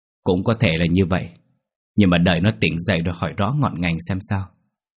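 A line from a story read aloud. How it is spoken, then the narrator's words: Sighing. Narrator (Vietnamese): Ông Năm thở dài, gật đầu nói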